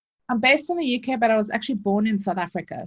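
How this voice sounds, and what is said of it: South African accent. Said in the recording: “might have an accent ... the accent that you're listening to is South African”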